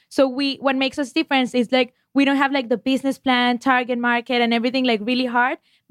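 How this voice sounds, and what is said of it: Noticeable accent. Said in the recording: “I would kill for that accent.”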